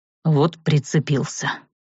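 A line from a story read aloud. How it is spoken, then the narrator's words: Displeased grumble. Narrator (Russian): недовольно буркнул вампир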